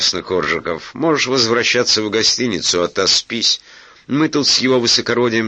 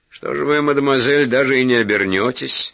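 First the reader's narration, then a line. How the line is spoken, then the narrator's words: Mocking question. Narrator (Russian): насмешливо спросил Глеб Георгиевич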